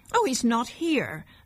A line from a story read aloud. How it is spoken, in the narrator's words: said his mother in a sharp, worried voice